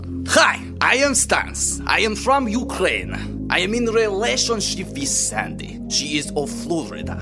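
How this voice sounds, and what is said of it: Heavy Ukrainian accent. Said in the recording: “His little accent is so funny and confusing... It's a big accent... That is a big accent.”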